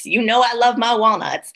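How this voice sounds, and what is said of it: Sudden put-on accent. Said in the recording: “I don't know where that accent just came from.”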